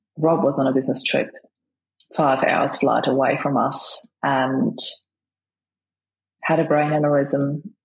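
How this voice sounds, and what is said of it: Australian accent. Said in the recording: “I can hear your Australian accent.”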